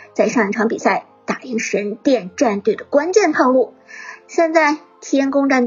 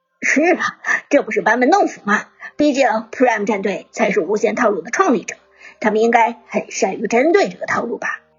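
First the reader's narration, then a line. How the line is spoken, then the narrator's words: Laughing. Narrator (Chinese): 剑南也笑道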